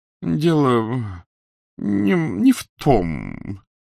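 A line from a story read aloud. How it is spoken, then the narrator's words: Mumbling. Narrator (Russian): пробормотало привидение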